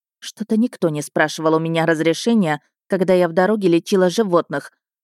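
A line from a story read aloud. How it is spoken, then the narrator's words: Angry mutter. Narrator (Russian): зло пробормотало под нос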